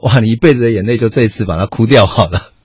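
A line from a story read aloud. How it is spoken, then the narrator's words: Joking wife. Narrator (Chinese): 我太太常常开玩笑说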